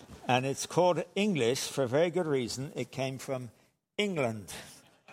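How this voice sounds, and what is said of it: English accent. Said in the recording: “This is not an accent, by the way. This is called English... I am English from England”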